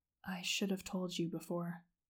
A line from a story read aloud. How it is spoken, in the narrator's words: Zuko whispered